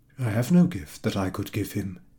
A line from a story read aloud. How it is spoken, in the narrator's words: thought sadly